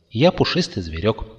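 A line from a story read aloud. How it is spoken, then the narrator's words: Plain. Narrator (Russian): ответил незнакомец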